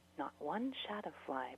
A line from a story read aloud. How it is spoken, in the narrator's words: Brigida muttered